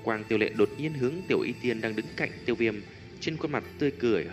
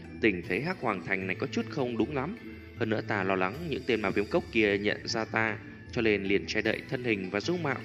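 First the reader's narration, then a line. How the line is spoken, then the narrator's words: Warm soft laugh. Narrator (Vietnamese): trong lòng Tiêu Viêm cũng xuất hiện một tia ấm áp, khẽ cười nói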